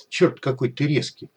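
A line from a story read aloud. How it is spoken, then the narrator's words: Cat mumbling. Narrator (Russian): пробормотал кот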